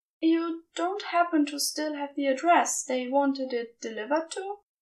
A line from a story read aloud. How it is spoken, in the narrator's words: She asked desperately